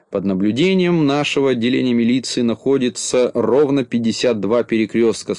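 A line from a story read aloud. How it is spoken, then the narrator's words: Plain. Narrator (Russian): сказал Караулькин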